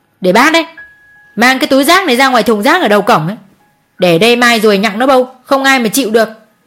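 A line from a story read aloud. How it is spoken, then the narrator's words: Shouting. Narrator (Vietnamese): cô Hường quát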